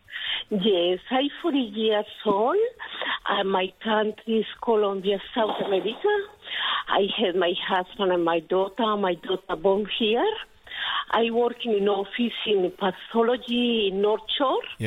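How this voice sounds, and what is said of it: Colombian accent in English. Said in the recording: “your accent is beautiful... I did hear a Colombia in there”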